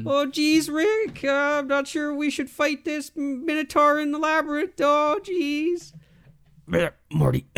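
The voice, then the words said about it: Rick and Morty impression. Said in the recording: “It's not a bad impression.”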